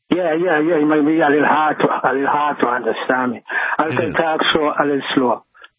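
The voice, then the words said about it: Heavy island accent. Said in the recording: “there is a bit of a language barrier here. You do have the heavy island accent.”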